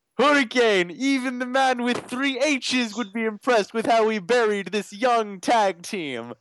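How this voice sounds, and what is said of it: Imitates another person's voice. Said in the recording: “Matt Hardy. ... to do the voice.”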